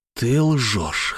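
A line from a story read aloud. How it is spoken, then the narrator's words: Hoarse, straining for firmness. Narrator (Russian): хрипло сказал я, пытаясь найти внутри себя твердость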